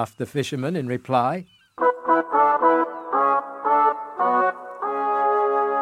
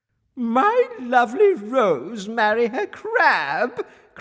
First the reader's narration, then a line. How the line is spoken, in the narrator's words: cried the queen in disgust